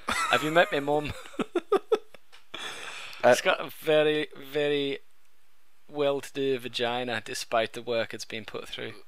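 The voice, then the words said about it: Vaguely British posh accent. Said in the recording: “Fucking awesome accent ... That accent's changed. Where's that from? That's from Thwapshire, whereas the other one was from just outside of Manchester ... I don't think you nailed any portion of that. That's vaguely British.”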